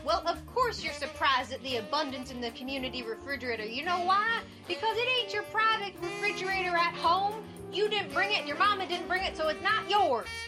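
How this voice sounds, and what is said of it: Fake Southern American accent. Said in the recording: “My southern accent is completely fake. I'm lousy at accents. ... I love the southern accent.”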